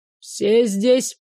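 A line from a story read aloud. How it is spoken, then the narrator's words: Stern question. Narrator (Russian): строго вопросил гонец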